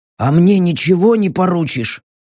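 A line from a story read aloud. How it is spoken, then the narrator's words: Hoarse, suppressing groans. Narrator (Russian): сдерживая стоны, прохрипел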